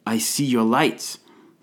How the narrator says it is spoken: Through the dense din, we heard him shout

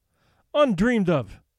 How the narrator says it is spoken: cried Mercedes, in dainty dismay

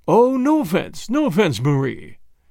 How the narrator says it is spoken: said Pereira in his smooth, rich voice

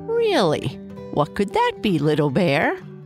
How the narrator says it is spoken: Papa Bear said with a chuckle

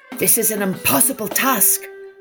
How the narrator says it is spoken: cried the Sultan

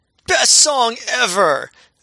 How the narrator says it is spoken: someone in the crowd yells very audibly

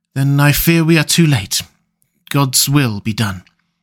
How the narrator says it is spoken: he said solemnly

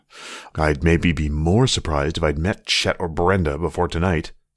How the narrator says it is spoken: Seth grumbled, too low for Emily to hear

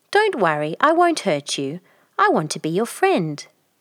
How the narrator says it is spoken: told her, kindly

